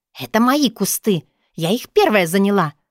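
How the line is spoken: Hissing, barking. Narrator (Russian): Обшипела, хотя по ощущениям обгавкала меня туевая соседка

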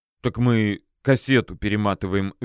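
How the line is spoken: Guilty mumble. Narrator (Russian): виновато промямлил Артемий

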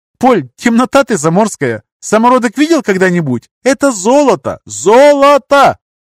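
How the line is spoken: Shouting. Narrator (Russian): закричала

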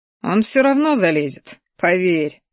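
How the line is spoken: Chuckling. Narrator (Russian): хохотнул я

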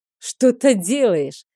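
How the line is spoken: Malicious snort. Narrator (Russian): хмыкнул Рик с такой злобой

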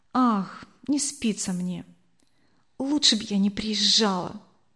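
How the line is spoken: Whispered. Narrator (Russian): также шепотом ответила она

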